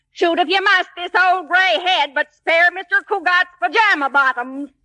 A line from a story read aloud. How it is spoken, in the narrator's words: I hollered back